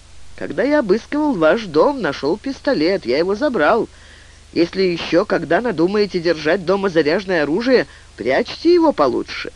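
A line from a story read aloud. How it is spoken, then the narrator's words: Said under breath. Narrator (Russian): Фанфан вполголоса сказал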